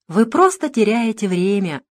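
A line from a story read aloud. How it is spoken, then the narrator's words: Ingratiating, insinuating. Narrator (Russian): вкрадчиво ответил Фогельсон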